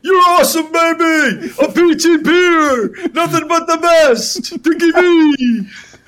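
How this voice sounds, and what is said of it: Dick Vitale impression. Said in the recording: “you do a great impersonation of Dick Vitale”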